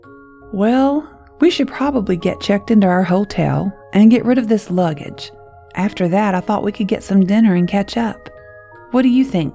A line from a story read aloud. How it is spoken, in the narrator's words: Nick asked